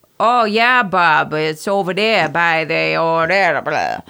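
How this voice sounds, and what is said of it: Exaggerated coastal Maine accent. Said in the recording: “a bad Maine accent, it's a coastal accent ... it's what we call down east”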